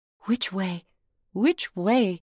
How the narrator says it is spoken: said anxiously to herself

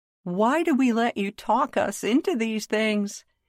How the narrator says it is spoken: she called out to Chris

